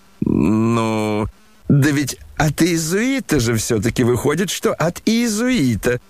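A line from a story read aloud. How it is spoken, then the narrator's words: Old man laughing fondly. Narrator (Russian): подхватил старичок, рассмеявшись при приятном воспоминании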